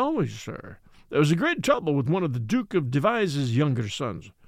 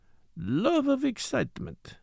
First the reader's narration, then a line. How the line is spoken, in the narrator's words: he murmured